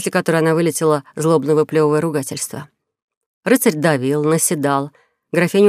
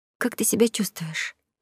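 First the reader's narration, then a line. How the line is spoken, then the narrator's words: Timid question. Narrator (Russian): робко спросила она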